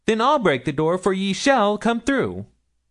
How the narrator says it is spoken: exclaimed Milly

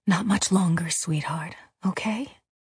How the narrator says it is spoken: Maya bent down and whispered

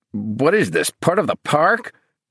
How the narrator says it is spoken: His voice cracked like the scream

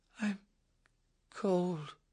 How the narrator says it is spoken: Snowden said softly

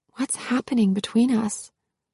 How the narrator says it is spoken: whispered

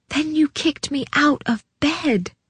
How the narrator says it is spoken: sucked in breath and whispered

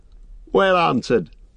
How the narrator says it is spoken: said Strider, laughing

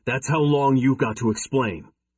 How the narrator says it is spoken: I growled

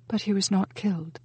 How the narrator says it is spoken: Judith whispered

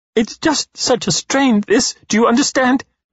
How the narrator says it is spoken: She sobs

